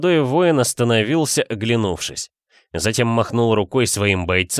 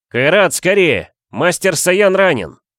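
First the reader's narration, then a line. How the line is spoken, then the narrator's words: Urgent shout. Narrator (Russian): прокричал Руслан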